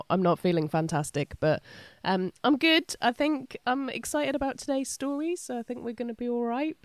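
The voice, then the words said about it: Congested, rough voice. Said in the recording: “as you can probably tell by my sexy voice ... I've picked up a, a, nasty cold”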